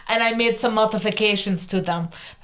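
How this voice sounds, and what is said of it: Put-on accent of a film character. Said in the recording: “That's my Yelena accent.”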